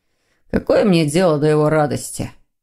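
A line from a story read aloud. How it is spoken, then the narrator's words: Grumbling demon. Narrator (Russian): проворчал демон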